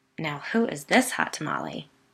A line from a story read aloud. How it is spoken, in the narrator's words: Biddy said in a low voice